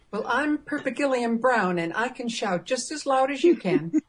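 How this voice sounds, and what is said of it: Good impression of Peri Brown's accent. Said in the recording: “Better version of the accent, though, eh? ... Yeah, great accent.”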